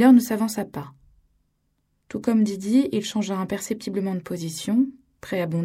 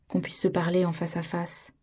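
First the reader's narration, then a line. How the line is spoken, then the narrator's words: Calm. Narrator (French): dit-il calmement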